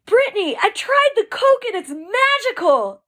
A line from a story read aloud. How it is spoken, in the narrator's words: I exclaimed